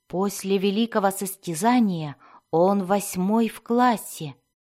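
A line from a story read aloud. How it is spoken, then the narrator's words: Plain. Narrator (Russian): сказал Альтан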